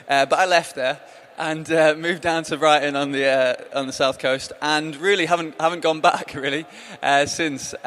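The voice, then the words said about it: Northwest English accent. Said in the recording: “I grew up in the Northwest, as you might be able to tell from my accent.”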